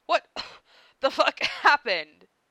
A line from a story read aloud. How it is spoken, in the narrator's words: Karkat wheezed between coughs